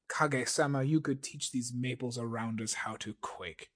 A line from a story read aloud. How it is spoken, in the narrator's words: sneered Motso